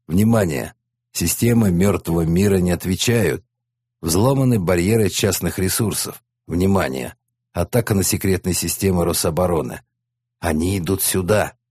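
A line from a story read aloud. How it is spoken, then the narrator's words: Hoarse command. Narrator (Russian): Менеджер хрипло скомандовал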